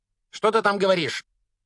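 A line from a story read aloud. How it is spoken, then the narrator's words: Barked through a door. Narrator (Russian): рявкнула тетя из-за двери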